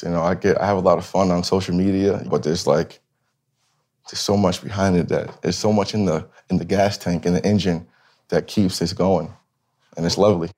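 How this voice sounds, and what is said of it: Choked up, emotional voice. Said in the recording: “Sorry for getting all choked up.”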